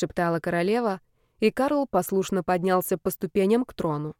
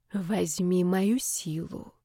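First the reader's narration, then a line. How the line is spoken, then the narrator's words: Queen's whisper. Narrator (Russian): прошептала королева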